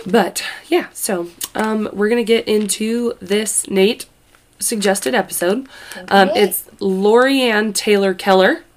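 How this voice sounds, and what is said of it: Nasal, congested voice. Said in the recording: “I sound nasally, but I'm fine, guys. I'm good. My voice is actually coming back.”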